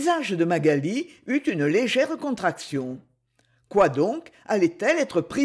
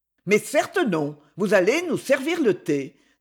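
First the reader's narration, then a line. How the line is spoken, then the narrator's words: Peremptory tone. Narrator (French): dit Lady Ophelia d'un ton péremptoire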